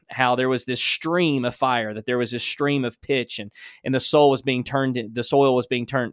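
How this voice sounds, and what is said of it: Alabama Southern accent. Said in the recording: “That's my Alabama accent.”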